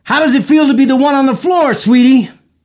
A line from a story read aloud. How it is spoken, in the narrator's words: yelled